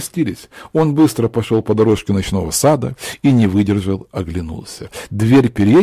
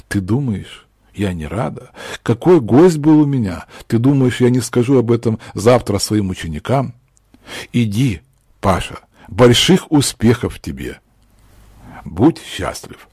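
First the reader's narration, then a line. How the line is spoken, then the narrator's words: Trembling voice. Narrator (Russian): сказала вздрагивающим голосом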